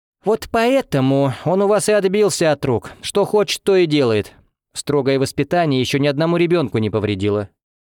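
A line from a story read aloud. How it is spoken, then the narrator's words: Preachy lecturing tone. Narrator (Russian): ответила Лариса Прохоровна назидательным тоном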